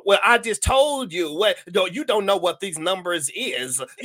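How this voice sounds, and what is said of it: Imitates another person's voice. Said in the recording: “my Katt Williams impression ... I got to channel my inner cat ... Like it's like feminine”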